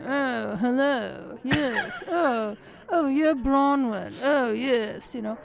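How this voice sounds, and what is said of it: Lockjaw upper-class accent impression. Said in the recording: “she had this, like, lockjaw kind of accent.”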